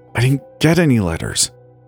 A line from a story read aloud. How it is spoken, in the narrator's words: I said through gritted teeth